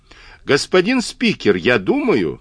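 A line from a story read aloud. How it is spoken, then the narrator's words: Shouted three times. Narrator (Russian): 3 раза я выкрикнул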